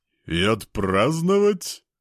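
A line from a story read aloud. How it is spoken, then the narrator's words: Chuckling. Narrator (Russian): хохотнул Васильков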